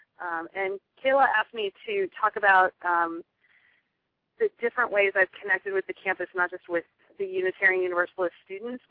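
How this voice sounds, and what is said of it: Slightly crackly voice. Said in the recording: “I've been getting over a cold, so if my voice sounds a little crackly, it's just the end of this cold”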